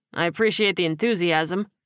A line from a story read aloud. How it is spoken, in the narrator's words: he said dryly